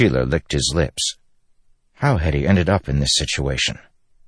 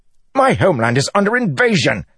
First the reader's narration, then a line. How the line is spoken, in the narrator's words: Sheila shouted